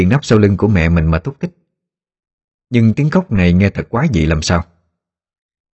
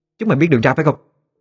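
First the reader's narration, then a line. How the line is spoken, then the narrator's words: Loud angry shout. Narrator (Vietnamese): Tiếng quát lớn của Nguyệt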